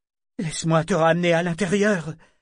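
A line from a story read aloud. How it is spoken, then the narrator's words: Pleading. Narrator (French): dit-elle d'un ton implorant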